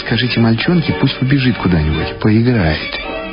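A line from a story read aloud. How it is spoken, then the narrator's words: Quiet. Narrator (Russian): Арнольд сказал тихо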